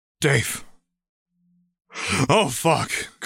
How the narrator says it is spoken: Crockett groans

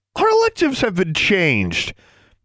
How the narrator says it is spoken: Alexandra exclaimed indignantly

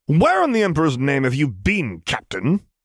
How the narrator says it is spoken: He spat

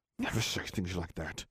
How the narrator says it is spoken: hissed Blaze

